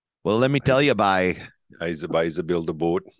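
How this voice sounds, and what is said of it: Put-on Maritime Canadian accent. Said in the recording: “in their finest Canadian accent ... no A's, eh? ... we could talk like that. We could do a whole episode talking like this, like we're from the New New Brunswick there”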